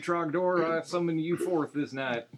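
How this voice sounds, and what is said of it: Put-on Southern accent. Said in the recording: “The southern accent. ... Pretty accurate.”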